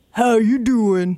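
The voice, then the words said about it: Put-on deep voice. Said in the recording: “do your deep voice.”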